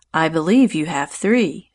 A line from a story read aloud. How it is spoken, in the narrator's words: said Louise in an amused tone